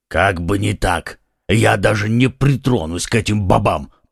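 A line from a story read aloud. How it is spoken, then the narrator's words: Grumbling under breath. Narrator (Russian): пробурчал про себя Портос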